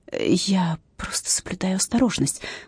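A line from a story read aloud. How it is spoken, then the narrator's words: Whispered. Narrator (Russian): прошептала я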